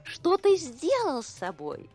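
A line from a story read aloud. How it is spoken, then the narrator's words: Laughing. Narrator (Russian): засмеялась она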